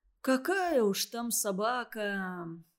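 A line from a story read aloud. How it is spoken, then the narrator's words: Heavy sigh. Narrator (Russian): ответил Андрей и тяжело вздохнул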